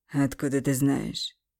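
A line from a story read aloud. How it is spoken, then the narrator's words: Skeptical snort. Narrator (Russian): Хмыкнул Андрей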